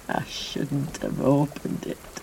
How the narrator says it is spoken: he muttered again

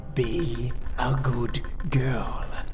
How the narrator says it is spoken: he whispered

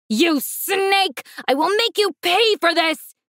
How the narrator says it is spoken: he roared

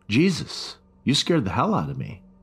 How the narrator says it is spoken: I said

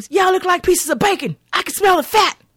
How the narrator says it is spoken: he plays a prick as he screams

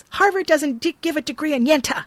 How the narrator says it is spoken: She yells

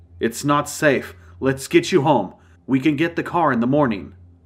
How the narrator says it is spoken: Georgie said

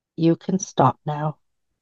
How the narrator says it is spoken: God gently said

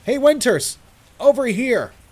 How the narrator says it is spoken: after I cleared my throat and tried to shake off the shock of the situation, I stood up and called out

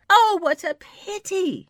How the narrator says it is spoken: she exclaimed

